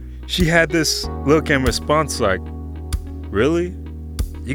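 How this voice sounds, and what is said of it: Usual voice. Nothing is said of it.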